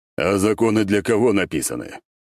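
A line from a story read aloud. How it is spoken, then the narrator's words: Snorted reply. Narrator (Russian): фыркнули мне в ответ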